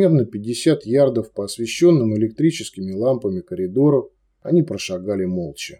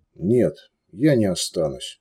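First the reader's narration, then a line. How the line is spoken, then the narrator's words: Quiet reply. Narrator (Russian): негромко ответил Луминар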